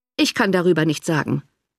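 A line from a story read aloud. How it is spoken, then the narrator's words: Cold reply. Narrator (German): erwiderte der Baronet kalt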